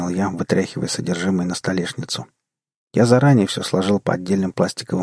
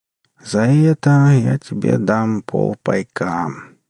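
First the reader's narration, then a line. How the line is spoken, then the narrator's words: Lazy drawl, indifferent. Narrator (Russian): лениво протянул бармен, даже не глядя на добычу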